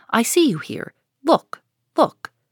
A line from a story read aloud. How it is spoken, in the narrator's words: cried she